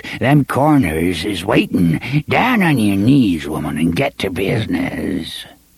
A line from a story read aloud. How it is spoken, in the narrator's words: croaked